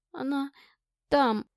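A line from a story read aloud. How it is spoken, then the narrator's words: Trembling whisper. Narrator (Russian): дрогнувшим голосом прошептала Настя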